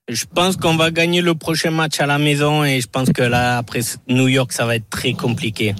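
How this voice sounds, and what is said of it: Southwestern French accent. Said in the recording (French): “cet accent du sud-ouest”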